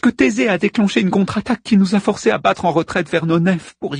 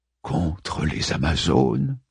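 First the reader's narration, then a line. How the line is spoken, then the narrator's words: Whispering. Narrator (French): chuchota Priam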